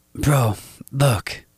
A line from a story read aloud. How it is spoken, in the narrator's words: my brother said